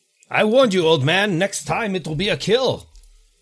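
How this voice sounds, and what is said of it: Character voice with put-on accent. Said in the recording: “my accent is getting worse.”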